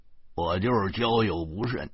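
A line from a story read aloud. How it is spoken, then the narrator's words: Sneering. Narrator (Chinese): 张东冷笑了几声，说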